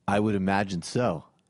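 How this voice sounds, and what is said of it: Put-on Massachusetts accent. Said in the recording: “put on a Massachusetts accent”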